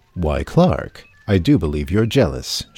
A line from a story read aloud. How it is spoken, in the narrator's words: replied